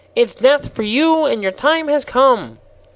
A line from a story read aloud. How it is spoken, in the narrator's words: continued triumphantly